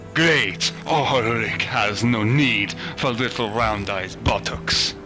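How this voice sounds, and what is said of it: Character voice, slightly Italian accent. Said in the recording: “I sound a little Italian there. ... God, accent ever.”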